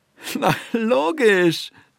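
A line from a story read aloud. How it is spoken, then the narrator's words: Laughing. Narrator (German): Bertha Knurr lachte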